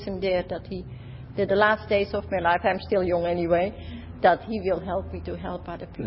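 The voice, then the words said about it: Dutch accent. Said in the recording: “You speak a great deal like my mother-in-law. ... Your language, your accent is like my mother-in-law. ... From Holland.”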